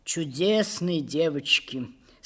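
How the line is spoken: Sighing. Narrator (Russian): сказал он, вздохнув

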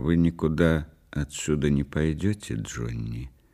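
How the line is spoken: Quiet woman. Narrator (Russian): тихо сказала она

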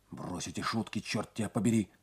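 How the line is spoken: Urgent whisper. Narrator (Russian): зашептал он

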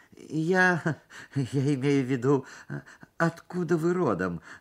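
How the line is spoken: Stammering. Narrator (Russian): заикался я

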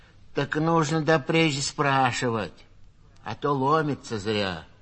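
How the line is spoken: Rude. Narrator (Russian): грубо сказала сиделка

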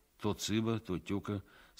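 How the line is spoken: Plain. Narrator (Russian): сказал я

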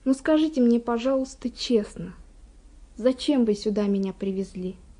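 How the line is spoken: Quiet question. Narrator (Russian): я спросила тихо

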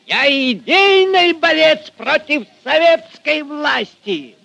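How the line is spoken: Furious shouting. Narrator (Russian): Багровей от гнева кричал Фомин

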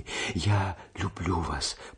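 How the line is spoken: Whisper. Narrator (Russian): прошептала она еще раз

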